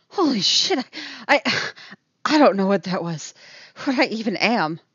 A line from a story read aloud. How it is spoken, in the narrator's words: she pants